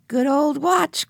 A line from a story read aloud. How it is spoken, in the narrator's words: cried Benny